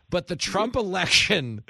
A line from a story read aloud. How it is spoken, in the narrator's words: they cried it out as a group therapy session